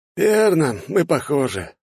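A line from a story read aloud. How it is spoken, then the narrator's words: Tired, smiling. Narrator (Russian): устало улыбается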